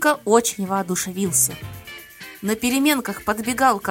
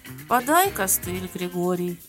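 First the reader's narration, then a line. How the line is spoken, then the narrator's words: Tired and friendly. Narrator (Russian): То устало дружелюбно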